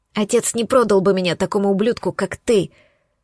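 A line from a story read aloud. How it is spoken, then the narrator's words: Angry blurt through gritted teeth. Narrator (Russian): Зло выпалила Есения, скрипнув зубами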